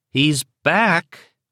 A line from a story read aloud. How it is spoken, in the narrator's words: Liz had cried in perfectly understandable irritation and dismay